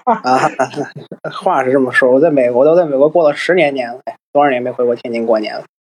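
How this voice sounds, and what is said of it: Pure Tianjin accent. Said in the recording (Chinese): “又是一个天津人 ... 可是你这口音是最纯正的。”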